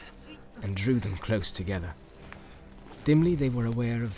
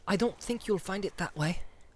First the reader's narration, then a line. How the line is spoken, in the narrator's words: he whispered